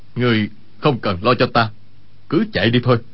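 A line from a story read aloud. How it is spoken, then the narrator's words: Low hushed voice. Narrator (Vietnamese): Y hạ giọng nói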